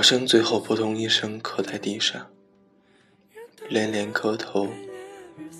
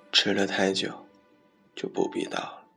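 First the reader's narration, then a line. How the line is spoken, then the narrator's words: Unmoved, firm. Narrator (Chinese): 监考老师却不为所动地说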